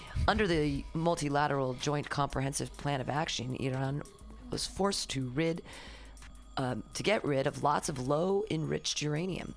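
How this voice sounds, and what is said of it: NPR-style radio announcer voice. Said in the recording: “I'm using my NPR voice.”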